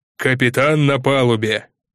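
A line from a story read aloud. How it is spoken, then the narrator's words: Booming bell-like bass. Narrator (Russian): глыба, словно крупный соборный колокол, пробасил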